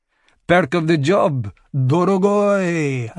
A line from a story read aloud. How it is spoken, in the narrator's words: Anton slurred